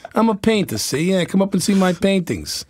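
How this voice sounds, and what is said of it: Poor New York accent impression. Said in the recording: “my impersonation ... it's a terrible impersonation ... he was such a New Yorker ... he's got a little more of the Bronx in there, I think, than uh, than that”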